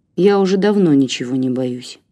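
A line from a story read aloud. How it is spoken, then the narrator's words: Sad. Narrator (Russian): грустно ответил Костя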